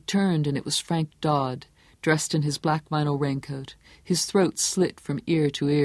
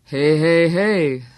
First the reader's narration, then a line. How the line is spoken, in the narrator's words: Stilson chanted, his voice deep and resonant and ominous